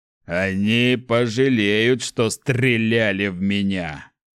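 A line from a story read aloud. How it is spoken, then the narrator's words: Growl. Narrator (Russian): прорычал он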